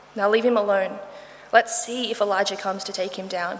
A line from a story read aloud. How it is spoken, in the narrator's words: he said